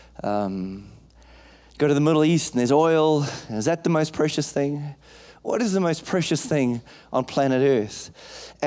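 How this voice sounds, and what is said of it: African accent. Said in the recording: “I come from Africa. You can hear the accent.”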